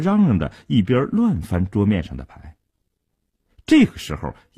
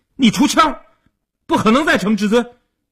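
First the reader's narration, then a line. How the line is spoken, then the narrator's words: Anxious shouting. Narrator (Chinese): 阿生一看急了，大声地嚷道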